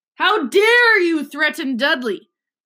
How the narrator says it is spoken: roared Uncle Vernon

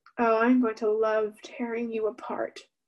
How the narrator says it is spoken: Sora said

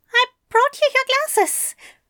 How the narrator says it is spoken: Aziraphale squeaked

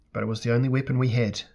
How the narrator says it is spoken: said Myshella

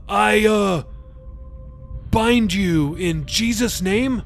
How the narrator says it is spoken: Jacob said weakly

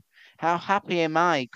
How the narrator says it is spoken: cried he

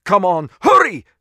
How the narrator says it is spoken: Chekhov yelled again, the last word muffled by his helmet

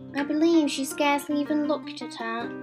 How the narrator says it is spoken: sighed Mrs

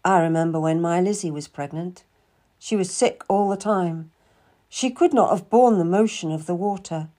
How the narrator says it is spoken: Cromwell commented wistfully

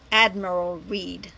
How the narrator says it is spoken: spat back

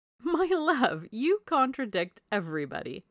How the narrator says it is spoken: said his wife with her usual laugh

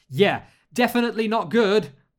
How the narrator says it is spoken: Alex shouted

